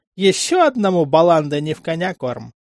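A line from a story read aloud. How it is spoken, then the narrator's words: Joker's chuckle. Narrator (Russian): хохотнул шутник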